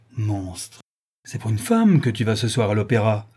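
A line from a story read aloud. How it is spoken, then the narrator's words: Brazen woman's outcry. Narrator (French): s'écrie l'effrontée créature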